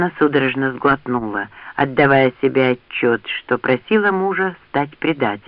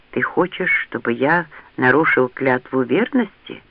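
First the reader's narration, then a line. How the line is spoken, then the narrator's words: Quiet question. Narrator (Russian): тихо спросил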